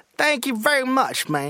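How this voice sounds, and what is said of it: Dave Chappelle impression. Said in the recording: “my Dave Chappelle impersonation ... Oh, see, there it is.”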